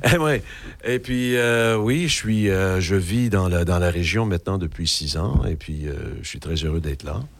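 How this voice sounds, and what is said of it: Québécois French accent. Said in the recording (French): “Je suis d'origine québécoise. ... on peut entendre un petit peu l'accent? ... Je suis québécois. Ben ouais, on l'entend bien”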